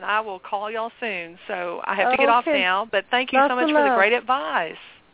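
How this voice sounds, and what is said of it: Sweet-sounding regional accent. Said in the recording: “I love your accent ... I love her voice. It was so sweet.”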